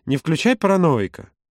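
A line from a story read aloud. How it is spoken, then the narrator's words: Almost cheerful. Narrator (Russian): добавил почти весело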